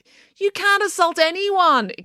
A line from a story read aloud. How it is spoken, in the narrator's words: exclaimed Mr